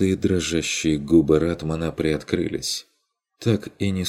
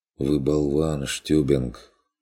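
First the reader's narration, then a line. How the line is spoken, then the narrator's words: Weary reply. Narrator (Russian): устало отозвался он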